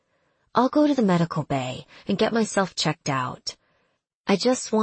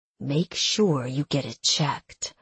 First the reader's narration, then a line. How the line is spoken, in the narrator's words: Ashrael growled